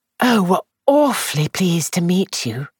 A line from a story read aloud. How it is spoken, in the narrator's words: Charmian said a little breathlessly